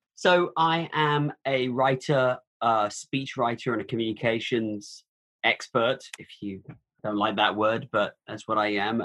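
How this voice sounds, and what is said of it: Transatlantic British-American accent. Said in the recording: “Your accent's a little bit transatlantic at this point ... I'm from the UK originally ... I am an American, just one with a weird voice.”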